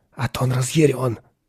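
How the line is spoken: Whisper. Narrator (Russian): прошептал он

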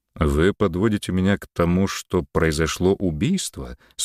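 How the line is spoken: Plain. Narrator (Russian): спросил Антон

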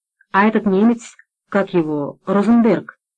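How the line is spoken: Plain. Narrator (Russian): спросил Лукаш

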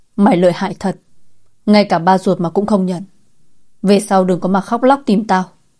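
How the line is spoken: Angry shout. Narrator (Vietnamese): Lâm Bằng giận dữ quát

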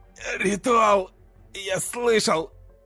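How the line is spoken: Hoarse, convulsive wheeze. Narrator (Russian): прохрипел он сквозь судороги

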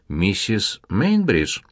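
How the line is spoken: Calm. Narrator (Russian): спокойно промолвил немец

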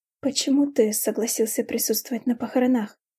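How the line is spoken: Hoarse question. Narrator (Russian): хрипло спросила я Кристиана

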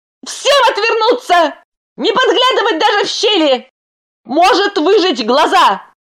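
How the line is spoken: Shout. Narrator (Russian): Крикнул

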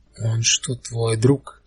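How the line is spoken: Raspy, crackly female voice. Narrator (Russian): голос ее хрипел, как дешевое радио

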